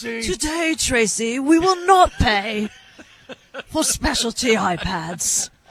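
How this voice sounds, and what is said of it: Put-on English accent. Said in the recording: “Always an English accent. ... The enemy's always got the English accent.”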